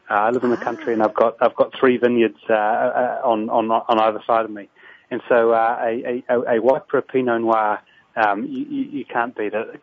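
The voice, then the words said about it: New Zealand accent. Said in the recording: “you can tell from my accent that I live in New Zealand”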